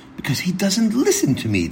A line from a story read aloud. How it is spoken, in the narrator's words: Tzadok exclaimed